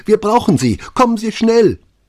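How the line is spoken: Shrill, excited woman. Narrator (German): rief sie schrill und aufgeregt

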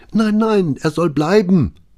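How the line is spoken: Pleading woman. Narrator (German): flehte Maria

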